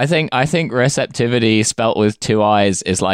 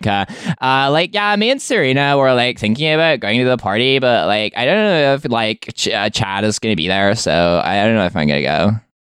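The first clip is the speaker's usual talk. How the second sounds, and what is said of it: Ditzy sorority girl voice. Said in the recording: “like a sorority girl ... like maybe this is like a robot sorority girl that you could order for your house”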